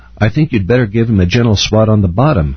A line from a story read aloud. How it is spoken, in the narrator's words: Grandpa quickly replied